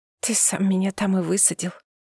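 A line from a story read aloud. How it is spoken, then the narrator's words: Whisper. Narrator (Russian): прошептала я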